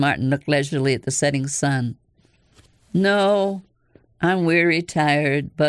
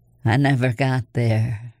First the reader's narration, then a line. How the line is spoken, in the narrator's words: his voice was slow and husky and low